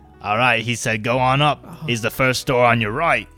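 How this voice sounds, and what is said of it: Slight put-on Australian accent. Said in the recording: “I went a bit Aussie on that”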